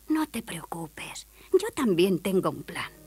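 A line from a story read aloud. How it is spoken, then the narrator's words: Whispered. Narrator (Spanish): Hansel susurró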